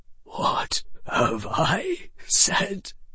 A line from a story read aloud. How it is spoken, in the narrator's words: the old wizard whispered